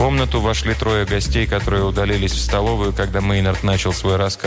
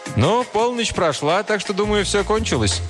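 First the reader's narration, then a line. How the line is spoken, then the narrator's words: Said cheerfully. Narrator (Russian): Один из них весело сказал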